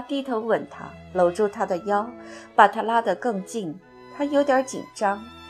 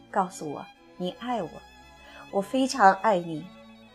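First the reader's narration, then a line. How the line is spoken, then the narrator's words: Soft, gentle. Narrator (Chinese): 他轻声道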